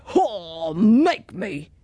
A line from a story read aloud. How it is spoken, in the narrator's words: he roared